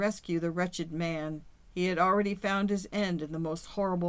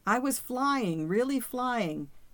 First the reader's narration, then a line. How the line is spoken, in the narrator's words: his voice brighter than it ever would be again